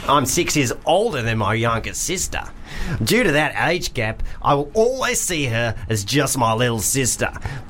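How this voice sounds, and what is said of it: Put-on Australian accent. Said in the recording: “I'm just going to do Australian because I don't really know what the difference is.”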